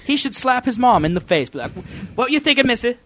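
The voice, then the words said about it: Fast, poor put-on English accent. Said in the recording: “That was my English accent ... Wasn't it good? ... No. It was too fast. ... if I do it slow, you can really notice that it sucks.”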